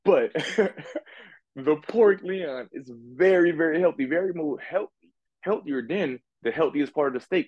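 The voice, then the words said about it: Slight New Orleans accent. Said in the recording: “I have a little accent, y'all. I'm from New Orleans”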